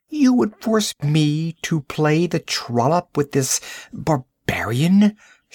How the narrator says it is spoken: She exclaimed

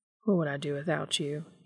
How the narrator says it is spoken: murmured

